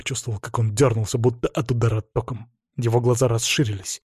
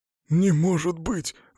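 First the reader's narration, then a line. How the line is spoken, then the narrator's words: Breathless exhale. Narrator (Russian): выдохнул он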